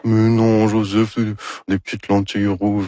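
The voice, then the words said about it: Imitates another person's voice. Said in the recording (French): “Ça, c'est mon imitation de Anne Dorval... C'est très réussi”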